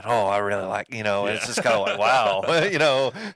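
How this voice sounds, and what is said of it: Imitates another person's voice. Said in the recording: “was that Jerry impression you did?”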